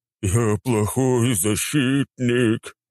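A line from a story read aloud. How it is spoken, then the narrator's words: Wailing again. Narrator (Russian): опять взвыл Нургал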